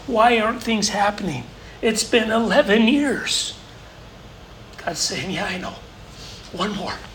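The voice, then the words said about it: Choked-up, emotional voice. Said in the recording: “getting all choked up here”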